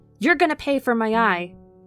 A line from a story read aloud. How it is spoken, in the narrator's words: he barked through gritted teeth